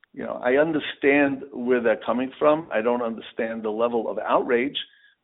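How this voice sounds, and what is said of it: American New York accent. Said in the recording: “you are not Israeli, clearly from your accent. ... you're born and bred in New York”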